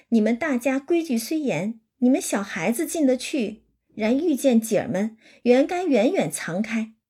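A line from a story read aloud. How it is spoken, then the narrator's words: Laughing. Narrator (Chinese): 尤二姐就笑了，说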